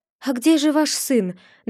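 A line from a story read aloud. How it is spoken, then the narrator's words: Trembling question. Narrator (Russian): дрожащим голосом спросил Якоб у своего отца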